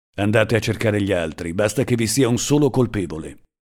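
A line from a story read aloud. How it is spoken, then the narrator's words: Harsh voice. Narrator (Italian): disse loro con voce aspra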